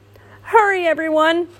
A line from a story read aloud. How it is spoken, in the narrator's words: Owl cried